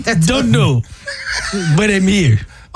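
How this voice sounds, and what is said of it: Put-on Jamaican or African accent. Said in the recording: “Why does he sound Jamaican? ... Oh, actually, African. ... Both of you all sound horrible.”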